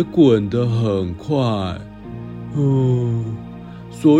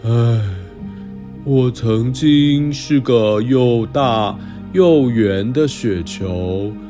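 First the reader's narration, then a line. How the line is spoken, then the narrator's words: Sighing murmur. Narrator (Chinese): 破掉的大雪球叹了口气，喃喃地说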